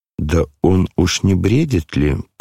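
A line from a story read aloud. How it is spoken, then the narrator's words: Muttered. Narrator (Russian): пробормотал генерал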